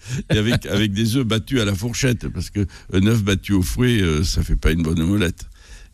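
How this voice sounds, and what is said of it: Gascon regional French accent. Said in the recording (French): “chez vous, c'est en, Gascogne. Hein, vous êtes un, ça s'entend à l'accent.”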